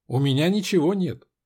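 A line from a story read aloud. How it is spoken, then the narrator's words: Sharp, clipped words. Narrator (Russian): сказала Вера, резко отчеканивая каждое слово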